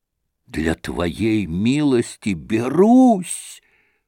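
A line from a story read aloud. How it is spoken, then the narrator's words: Trembling whisper. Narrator (Russian): прошептал он, дрожа всем телом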